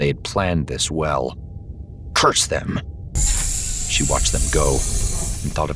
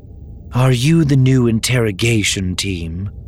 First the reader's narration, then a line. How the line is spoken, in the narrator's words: asked wearily